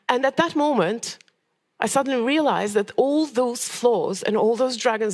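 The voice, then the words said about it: Odd accent. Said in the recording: “my odd accent”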